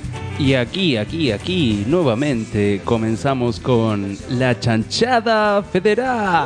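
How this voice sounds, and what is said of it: Radio announcer voice. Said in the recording (Spanish): “Tiró voz de locutor, ¿eh?”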